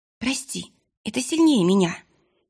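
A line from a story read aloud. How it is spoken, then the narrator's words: Breathed out. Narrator (Russian): выдохнула Лиса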